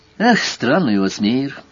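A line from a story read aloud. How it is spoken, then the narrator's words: Sighing to himself. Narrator (Russian): Вздохнул про себя Сварог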